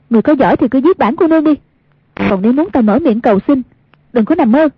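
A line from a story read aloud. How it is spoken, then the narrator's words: Defiant loud shout. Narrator (Vietnamese): không chịu nhận thua, cao giọng quát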